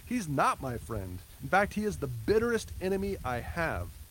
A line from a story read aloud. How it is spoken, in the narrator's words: exclaimed the old preacher